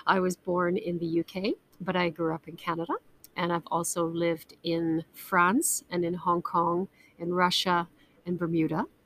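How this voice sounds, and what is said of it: Mixed British and Canadian accent. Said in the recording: “I am a British Canadian. The accent's a little bit messed up.”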